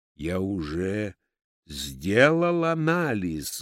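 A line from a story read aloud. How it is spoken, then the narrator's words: Dull muffled repeat. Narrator (Russian): глухо повторил Евсей Львович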